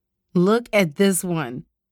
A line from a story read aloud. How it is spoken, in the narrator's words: Rochelle said with a cackle